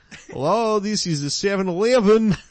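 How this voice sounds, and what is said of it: Put-on Russian Jewish accent. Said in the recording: “I do a Jewish accent... I'm going to do it in the best accent I can do... now I'm Russian... Russian Jewish”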